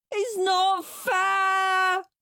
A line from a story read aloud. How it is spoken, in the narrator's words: wailed Henry